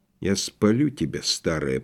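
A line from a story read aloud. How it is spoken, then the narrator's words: Sleepy mumble. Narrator (Russian): пробормотал я, засыпая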